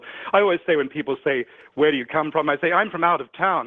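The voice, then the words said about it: Mixed Australian-based accent. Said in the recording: “I talk funny. I was born in Melbourne, Australia. ... My accent is a bit of a patchwork quilt.”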